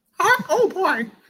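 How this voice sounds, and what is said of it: Mickey Mouse impression. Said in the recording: “good Mickey Mouse impression”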